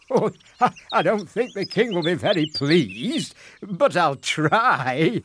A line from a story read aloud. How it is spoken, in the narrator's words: laughed the fisherman in reply